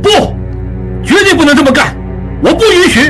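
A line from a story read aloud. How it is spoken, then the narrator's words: Loud objection. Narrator (Chinese): 应季大声阻止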